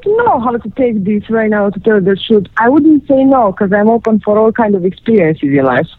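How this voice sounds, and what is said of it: Eastern European accent. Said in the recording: “God, she's got a sexy voice ... the Eastern European accent ... I'm sorry for my accent”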